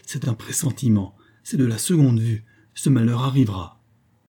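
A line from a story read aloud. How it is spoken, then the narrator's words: Exclaimed. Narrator (French): s'écria-t-elle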